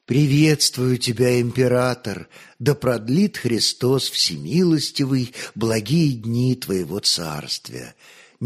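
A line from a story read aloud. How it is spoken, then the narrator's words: Pleasant formal voice. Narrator (Russian): приятным голосом молвил Константин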